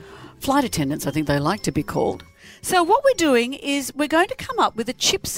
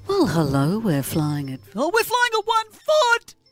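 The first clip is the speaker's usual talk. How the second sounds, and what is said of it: Airline pilot announcement voice. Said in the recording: “You sound like an airline pilot.”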